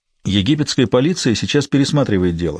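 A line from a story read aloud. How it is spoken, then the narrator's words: Plain. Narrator (Russian): сказал он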